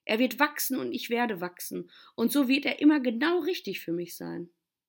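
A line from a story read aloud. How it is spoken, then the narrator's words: Boy calling out. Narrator (German): rief der Junge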